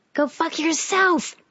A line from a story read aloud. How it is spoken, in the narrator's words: she yelled